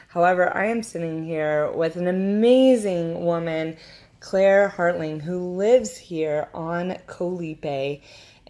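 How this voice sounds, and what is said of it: Slightly off voice from a cold. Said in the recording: “my voice is a little off right now. I've had a little bit of a cold for the last week”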